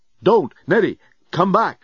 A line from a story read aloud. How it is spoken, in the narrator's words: Dan yelled